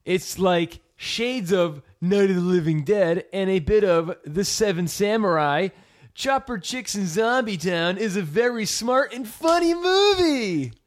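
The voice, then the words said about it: Imitates another person's voice. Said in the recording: “Is that how Austin speaks? Was that your best Austin impression? ... That is my Austin impression.”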